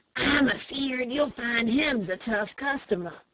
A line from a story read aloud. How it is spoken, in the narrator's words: he whispered